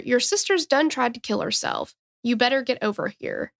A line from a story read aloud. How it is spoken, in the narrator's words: calmly tells her